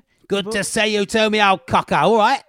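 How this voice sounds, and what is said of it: Put-on Cockney accent. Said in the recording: “You don't need to keep up the accent. ... keep the old cockney thing up”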